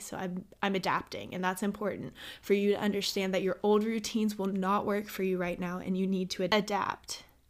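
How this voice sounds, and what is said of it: Slightly shaky voice. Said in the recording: “my voice is a little shaky also ... my throat has been getting really dry”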